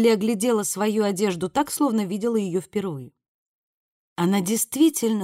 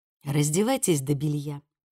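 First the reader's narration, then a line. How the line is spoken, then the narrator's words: Soft. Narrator (Russian): мягко сказала Виккерс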